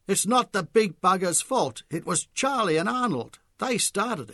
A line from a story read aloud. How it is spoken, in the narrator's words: The cardio who'd been playing pool against Charlie suddenly called out